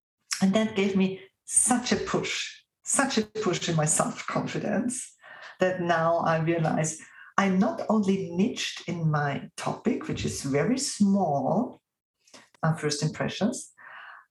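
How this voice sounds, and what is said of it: Non-native accented English. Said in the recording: “my accent ... somebody who is not the cookie cutter perfect American presenter or German presenter or English or French presenter”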